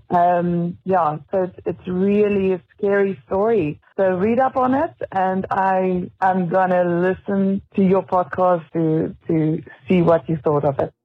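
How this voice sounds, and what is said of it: South African accent. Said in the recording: “South Africa. ... I don't know if that was a good accent or not”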